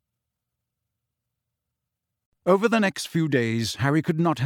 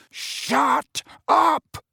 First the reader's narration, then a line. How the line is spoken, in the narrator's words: roared Mrs